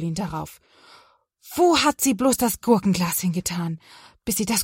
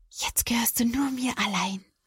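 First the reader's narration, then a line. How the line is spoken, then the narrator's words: Happy whisper. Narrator (German): Caroline lächelt glücklich und flüstert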